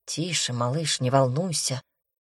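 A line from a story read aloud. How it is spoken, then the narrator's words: Whisper. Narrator (Russian): шепнул зеленоглазый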